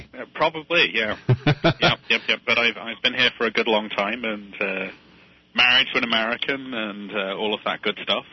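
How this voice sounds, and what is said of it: British accent. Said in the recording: “I think you can probably hear from my accent where I grew up. ... Well, probably in the UK.”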